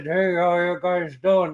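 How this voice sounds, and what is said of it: Heavy, tooth-clenched old-fashioned accent. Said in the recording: “It was that heavily accented ... Like tooth clenched type of accent.”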